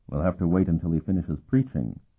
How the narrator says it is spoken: Sparhawk murmured

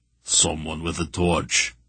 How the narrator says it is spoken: Barak muttered

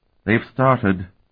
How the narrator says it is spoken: Tinian said sadly

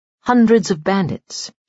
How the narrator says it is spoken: said shakily

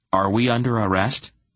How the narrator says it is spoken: Geryon asked nervously

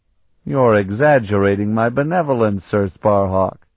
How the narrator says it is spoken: Lycian laughed

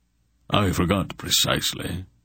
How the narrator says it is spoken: Zadar answered, and his voice was faintly troubled

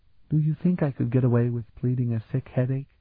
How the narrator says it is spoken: Elana murmured to Sparhawk

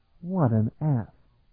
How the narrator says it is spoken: Talon muttered

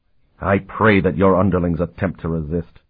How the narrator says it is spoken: he said fiercely

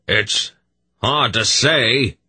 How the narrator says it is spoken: Durnick shouted back

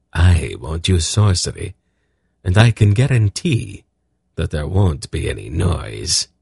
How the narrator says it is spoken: Silk said grimly

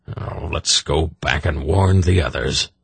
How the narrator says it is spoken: he growled

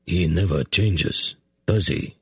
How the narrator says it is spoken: Hetar murmured

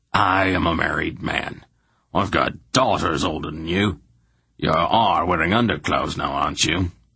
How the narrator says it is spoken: he said testily

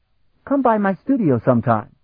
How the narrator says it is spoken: he added brightly

